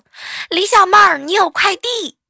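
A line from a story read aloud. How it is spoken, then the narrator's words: Girl shouting. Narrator (Chinese): 前台那个小姑娘就大喊我一声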